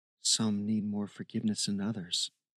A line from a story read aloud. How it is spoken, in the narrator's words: he whispered to himself